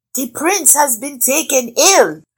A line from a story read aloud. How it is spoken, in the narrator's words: cried the guests